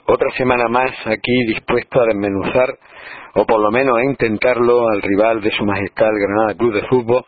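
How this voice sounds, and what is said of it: Deep hoarse sickly voice. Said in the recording (Spanish): “os pido excusas por esta voz de ultratumba, porque he pasado una semana, bueno, pues muy cuesta arriba con unas anginas de caballo que me han dejado bastante tocado ... me quede un poco asfixiado ... me ahogo”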